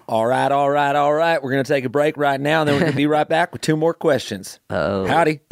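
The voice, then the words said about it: Put-on Southern US accent. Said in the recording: “Let's do like Southern accent style.”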